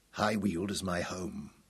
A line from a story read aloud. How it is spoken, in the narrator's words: Tom protested coldly